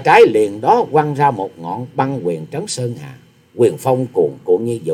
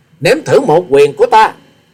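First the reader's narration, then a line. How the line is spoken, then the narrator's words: Thunderous roar. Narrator (Vietnamese): Hòa sĩ Kiệt gầm lên như sấm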